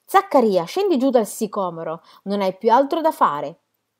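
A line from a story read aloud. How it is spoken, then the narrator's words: Shouting. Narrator (Italian): gridò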